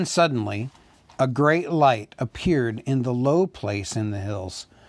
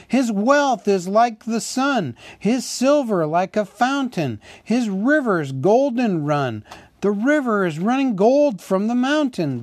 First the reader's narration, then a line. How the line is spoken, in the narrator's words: they cried